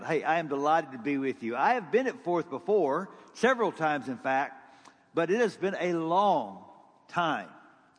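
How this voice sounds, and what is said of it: Texas accent. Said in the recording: “This is called a Texas accent, okay? It's the only one I have.”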